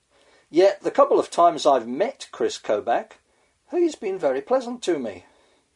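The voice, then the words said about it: Foreign accent. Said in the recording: “I'm an immigrant, as anyone can tell from my voice.”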